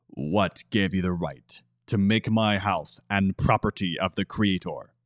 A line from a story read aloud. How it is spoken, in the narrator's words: Katami demanded, a cold, venomous, growling tone in his voice